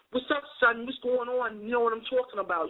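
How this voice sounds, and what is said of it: Put-on New York accent. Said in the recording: “my accents fluctuate because, you know, I'm just very extra like that ... I can go New York on you”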